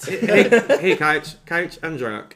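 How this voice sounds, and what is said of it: Poor Matt Saracen impression. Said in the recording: “that was not a great Saracen impersonation”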